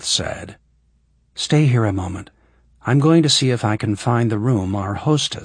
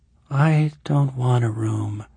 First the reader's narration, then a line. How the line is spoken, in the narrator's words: Eleanor said drowsily